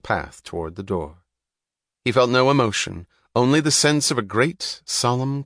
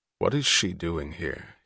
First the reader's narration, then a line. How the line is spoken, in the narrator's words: he asked, his voice dispassionately flat